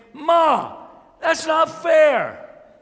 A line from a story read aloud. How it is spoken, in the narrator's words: What I did instead is exclaim